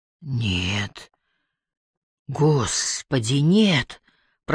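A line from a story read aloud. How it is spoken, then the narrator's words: Whispered like a prayer. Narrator (Russian): прошептала Барбара как молитву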